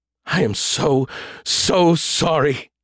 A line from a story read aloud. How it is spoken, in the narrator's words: moaned, wavering and fading out